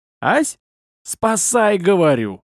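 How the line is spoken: Yell. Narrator (Russian): заорал я

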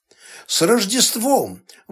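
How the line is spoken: Happy exclamation. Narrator (Russian): воскликнула она, чувствуя себя счастливой

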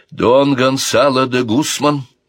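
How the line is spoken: Loud and instructive. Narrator (Russian): громко и наставительно начала говорить принцесса Марион

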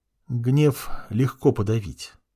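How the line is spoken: Very quiet. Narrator (Russian): сказал очень тихо

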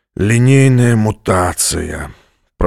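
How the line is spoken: Commander moaning. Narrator (Russian): простонал командор

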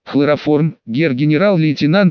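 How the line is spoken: Plain. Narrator (Russian): ответил Евгений Киричев

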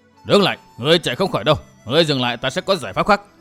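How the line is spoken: Old man shouting while chasing. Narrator (Vietnamese): Vừa đuổi, lão quái nhân áo đỏ bịt mặt vừa quát

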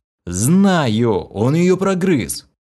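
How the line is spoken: Breathless moan. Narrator (Russian): Запаленно дыша, простонал

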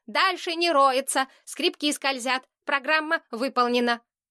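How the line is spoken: Mechanical voice. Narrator (Russian): Уркла сказал механическим голосом

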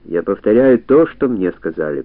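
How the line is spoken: Grumbling. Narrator (Russian): пробурчал Зембо

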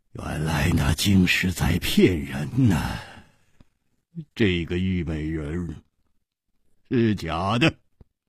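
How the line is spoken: Laughing. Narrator (Chinese): 他笑着说

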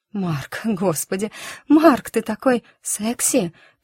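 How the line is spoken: Faltering broken whisper. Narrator (Russian): пролепетала она прерывистым шепотом

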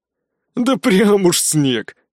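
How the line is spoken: Man's skeptical grunt. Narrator (Russian): хмыкнул мужик

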